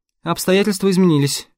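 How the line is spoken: Dry. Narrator (Russian): сухо проговорила Веденеева

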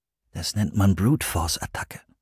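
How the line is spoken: Quiet explanation. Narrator (German): erklärte Christopher leise

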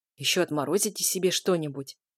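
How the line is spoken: Grumbling. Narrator (Russian): проворчал

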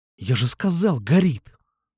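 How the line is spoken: Hissed. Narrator (Russian): Прошипел я

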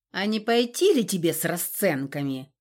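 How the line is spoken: Angry outburst. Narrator (Russian): взвелся Лар, зло сверкнув глазами

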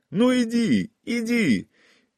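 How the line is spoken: Shouting against fierce wind. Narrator (Russian): кричал Павел, а ветер подхватывал его слова и свирепо втискивал их обратно в его горло

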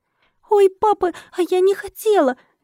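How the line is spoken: Frightened little girl gasp. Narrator (Russian): Девочка ойкнула и испуганно замерла

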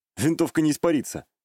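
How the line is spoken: Snorting. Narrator (Russian): хмыкнул

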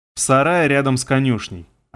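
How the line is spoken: Plain. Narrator (Russian): ответил я

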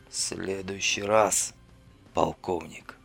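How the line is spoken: Hoarse rasp. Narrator (Russian): прохрипел враг

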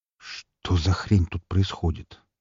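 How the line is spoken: Bewildered mutter. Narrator (Russian): пробормотал я

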